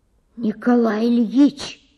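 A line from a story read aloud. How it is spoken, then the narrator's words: Loud whisper. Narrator (Russian): громко прошептал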